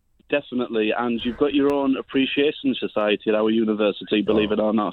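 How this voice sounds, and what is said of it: Slight Middlesbrough accent. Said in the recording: “is that a slight... What am I hearing accent-wise? Middlesbrough? ... Middlesbrough twang”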